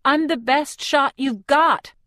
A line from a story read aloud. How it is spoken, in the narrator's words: I shout